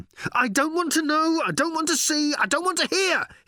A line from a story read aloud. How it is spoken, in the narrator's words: he yelled as he ran